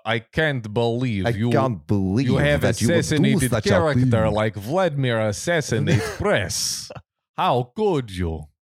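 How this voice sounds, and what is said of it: Put-on Russian accent. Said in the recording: “I'm imagining this in a Russian accent ... what's a Russian accent?”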